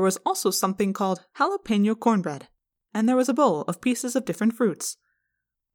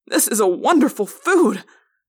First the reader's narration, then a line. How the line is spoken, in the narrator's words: I cried